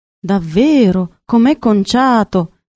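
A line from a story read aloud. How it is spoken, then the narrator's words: Councillors exclaiming together. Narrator (Italian): esclamarono gli assessori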